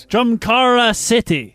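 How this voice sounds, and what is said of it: Put-on country accent. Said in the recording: “say the name of that venue but in a country accent? ... Not bad.”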